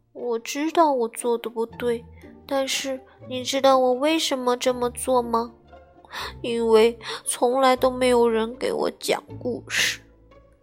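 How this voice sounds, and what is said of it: Quiet, soft tearful speech. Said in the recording (Chinese): “小东西流出了眼泪，他小声地说”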